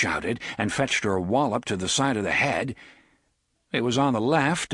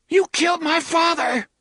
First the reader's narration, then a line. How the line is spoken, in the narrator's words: she screamed at him